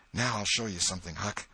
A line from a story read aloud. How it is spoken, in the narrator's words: Tom whispered